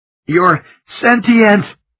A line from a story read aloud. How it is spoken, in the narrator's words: gasped